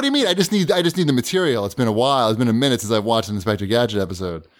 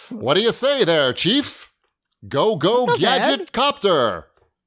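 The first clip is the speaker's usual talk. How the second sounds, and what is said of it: Weak Don Adams Inspector Gadget impression. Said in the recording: “Can you pull off a Don Adams impersonation? ... That wasn't so good.”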